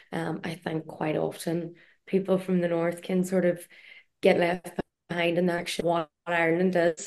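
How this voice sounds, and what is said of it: Northern Irish accent. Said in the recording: “there was a voice from the north in it ... she definitely wanted me to use my own accent”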